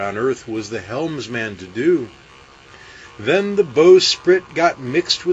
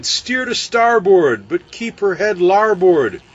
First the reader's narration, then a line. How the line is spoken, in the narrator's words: he cried